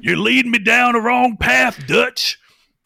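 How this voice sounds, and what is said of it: Gruff put-on Southern accent. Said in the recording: “A little more gruff voice ... that accent,⟧ then you have a complaint about the South”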